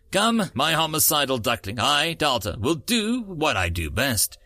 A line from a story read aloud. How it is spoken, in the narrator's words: she said in a formal tone